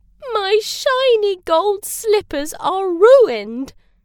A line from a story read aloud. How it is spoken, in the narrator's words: wailed